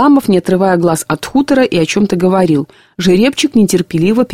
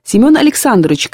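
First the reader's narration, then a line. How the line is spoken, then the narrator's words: Shouted. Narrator (Russian): крикнул Пантелей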